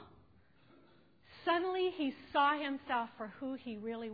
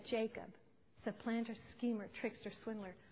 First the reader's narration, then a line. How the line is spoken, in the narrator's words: in shock of realization, whispering, he said